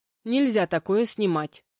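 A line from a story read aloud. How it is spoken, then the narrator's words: Muttered under breath. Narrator (Russian): пробурчала я под нос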